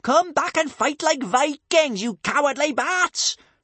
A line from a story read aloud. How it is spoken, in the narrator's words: shrieked Kamikaze in a twist of fury at being kidnapped by the raptor tongues